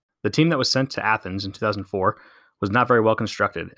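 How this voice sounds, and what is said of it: American accent. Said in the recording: “As you can probably tell by my accent, that team is the good old US of A.”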